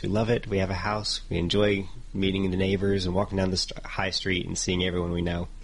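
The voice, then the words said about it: American Texan accent. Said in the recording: “judging by the accent ... I played some from Texas and then California”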